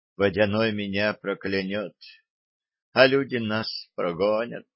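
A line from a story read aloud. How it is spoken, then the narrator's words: Sighing girl. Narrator (Russian): вздохнула девочка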